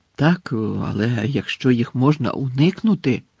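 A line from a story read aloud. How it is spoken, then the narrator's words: Wary mutter. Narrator (Ukrainian): пробурмотів, який добре знав, що таке біль, і геть не прагнув відчути його знову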